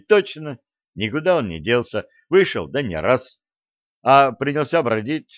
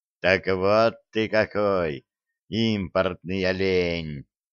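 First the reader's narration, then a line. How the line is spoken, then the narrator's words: Satisfied mutter. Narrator (Russian): удовлетворенно пробурчал Филин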